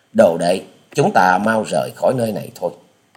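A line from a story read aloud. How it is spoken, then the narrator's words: Sighing weary speech. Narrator (Vietnamese): Hà Xà tiên tử nhẹ buông tiếng thở dài, bảo với Tạ Trinh Trinh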